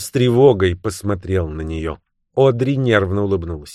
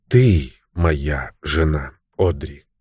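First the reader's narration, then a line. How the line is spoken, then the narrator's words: Barely audible. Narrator (Russian): еле слышно сказал он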